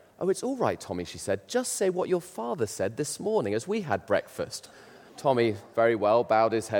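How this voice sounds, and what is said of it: Usual voice. Nothing is said of it.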